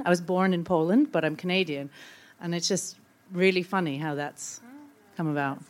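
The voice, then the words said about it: Canadian accent. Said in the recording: “It's always my accent comes out, and it's like now I say, well, I'm Canadian.”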